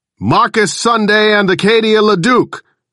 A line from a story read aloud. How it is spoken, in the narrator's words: I roared